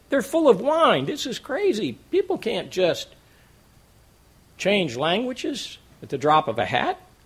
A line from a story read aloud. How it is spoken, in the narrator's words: Others, mocking, said